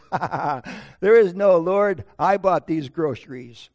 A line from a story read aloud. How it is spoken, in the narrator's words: The atheist kind of chuckled and said